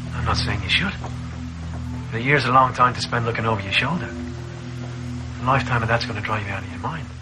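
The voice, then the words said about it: Scottish accent. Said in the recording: “He's the wise American with a Scottish accent.”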